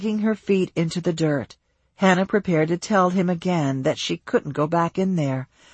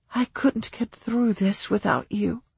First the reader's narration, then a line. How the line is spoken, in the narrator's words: she whispered